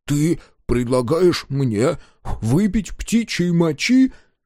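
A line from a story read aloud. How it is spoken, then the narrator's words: Halting question. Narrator (Russian): запинаясь, спросил дозер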